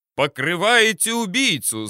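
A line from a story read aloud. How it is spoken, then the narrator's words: Shouted reply. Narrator (Russian): заорал я в ответ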